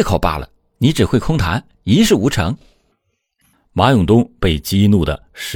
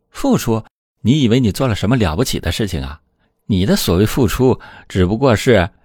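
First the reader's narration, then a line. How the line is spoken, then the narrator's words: Laughing reply. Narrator (Chinese): 阿兰却笑着回应说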